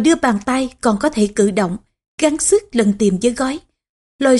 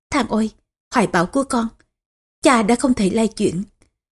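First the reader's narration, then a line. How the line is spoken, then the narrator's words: Soft sighing voice. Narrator (Vietnamese): Tô Hậu khẽ thở dài, nói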